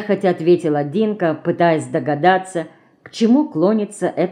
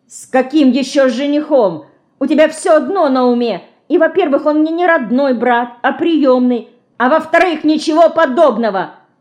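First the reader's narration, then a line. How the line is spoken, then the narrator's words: Flaring up, shouting. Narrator (Russian): Вспыхнув, закричала Динка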